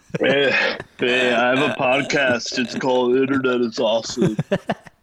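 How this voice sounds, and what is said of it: Imitates another person's voice. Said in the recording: “Are you doing an impression of me? ... He's nailing it. ... It's a few octaves higher than that.”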